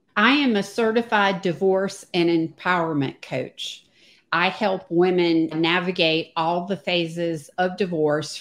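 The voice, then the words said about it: Virginia / North Carolina accent. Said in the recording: “spent most of my life in Virginia, North Carolina, if you can tell from the accent”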